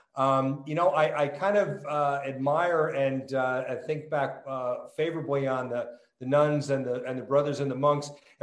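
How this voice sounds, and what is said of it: New Jersey accent. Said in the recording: “a born and raised New Jersey kid. It will clearly come out in my accent, especially as I get more excited. However, it was tempered by 25 years in California”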